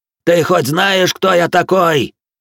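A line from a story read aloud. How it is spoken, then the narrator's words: Shrieking old man. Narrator (Russian): истошно заорал седой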